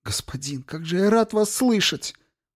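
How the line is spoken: Moaning, barely audible whisper. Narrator (Russian): Он застонал, его голос превратился в едва слышный шепот

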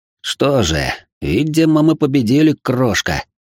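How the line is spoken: Through clenched teeth. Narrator (Russian): сквозь зубы процедил я

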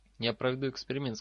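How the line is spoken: Plain. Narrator (Russian): сказал Гарри

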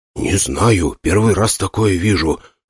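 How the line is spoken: Careful whispered reply. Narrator (Russian): ответил я шепотом, стараясь не спугнуть видение

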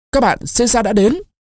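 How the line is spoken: Officers shouting loudly. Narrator (Vietnamese): Các sĩ quan ... cao giọng hét to

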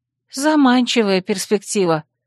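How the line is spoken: Grumble. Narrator (Russian): проворчала

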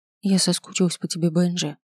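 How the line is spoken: Whisper. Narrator (Russian): прошептала я

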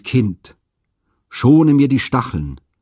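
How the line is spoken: Sighing warning. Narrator (German): aber er seufzte dazu und sprach warnend

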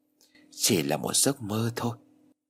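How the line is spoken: Puffs out breath, speaks. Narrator (Vietnamese): Thổi phù một cái, tôi nói

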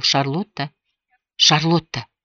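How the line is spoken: Whispered into her ear. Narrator (Russian): наклонился, насколько смог, к ее уху и прошептал

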